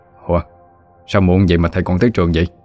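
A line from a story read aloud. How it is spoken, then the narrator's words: Smiling question. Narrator (Vietnamese): mỉm cười hỏi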